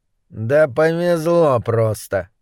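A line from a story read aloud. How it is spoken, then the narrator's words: Grumbling mutter. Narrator (Russian): буркнул Моррис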